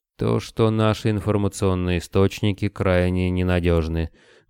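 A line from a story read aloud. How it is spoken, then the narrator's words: Gloomy. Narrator (Russian): мрачно произнес Новак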